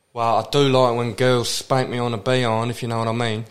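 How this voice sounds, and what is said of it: British Leeds accent. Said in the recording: “you've got that British accent ... I'm from fucking Leeds ... You're a filthy little cockney”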